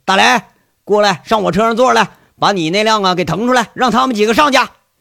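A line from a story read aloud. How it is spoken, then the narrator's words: Shouting. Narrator (Chinese): 杨伟 跟着喊一句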